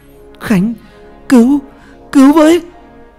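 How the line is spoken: Desperate screaming. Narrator (Vietnamese): Cô gào thét

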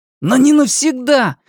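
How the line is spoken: Furious boy's exclamation. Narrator (Russian): яростно воскликнул мальчик

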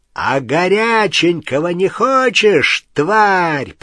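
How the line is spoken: Roaring. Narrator (Russian): проревел Крэб

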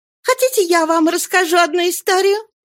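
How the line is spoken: Little girl's exclamation. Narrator (Russian): воскликнула маленькая Мария Блонд

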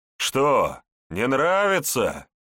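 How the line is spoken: Mocking laughter. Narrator (Russian): издевательски захохотал немец

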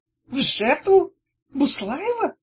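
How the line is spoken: Seemingly confused question. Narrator (Russian): переспросил Тухломон, будто растерянно

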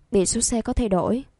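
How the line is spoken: Amused speaking. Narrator (Vietnamese): Triệu Tử Thiêm khẽ cười, vẫn nói tiếp

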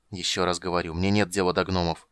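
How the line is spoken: Irritated speech. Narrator (Russian): раздраженно проговорил маг

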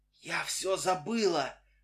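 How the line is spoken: Muffled whisper through gauze. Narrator (Russian): шепнула она мне сквозь марлевые повязки, закрывавшие ей рот и нос

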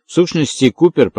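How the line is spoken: Slightly trembling voice. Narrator (Russian): проговорил он слегка дрожащим голосом

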